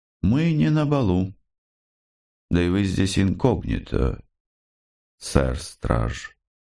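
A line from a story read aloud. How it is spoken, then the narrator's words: Calm queen reply. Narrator (Russian): спокойно ответила королева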